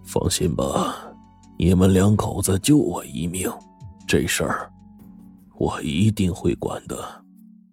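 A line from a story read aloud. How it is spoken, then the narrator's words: Sighing. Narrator (Chinese): 萧怀山…叹了口气说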